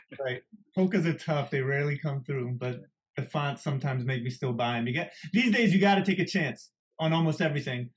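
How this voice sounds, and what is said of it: Italian-Philadelphian mixed accent. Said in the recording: “Where's that accent from? I'm trying to place your accent. ... My mom's Italian, but it's mixed with Philadelphian lazy talk. ... It's a little bit of jive.”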